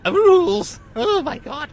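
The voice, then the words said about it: Voice cracks into high falsetto. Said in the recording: “puberty strikes again ... warming up my preteen falsetto”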